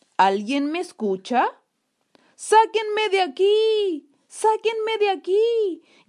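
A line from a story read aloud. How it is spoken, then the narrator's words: Shouting with full force. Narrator (Spanish): gritó con todas sus fuerzas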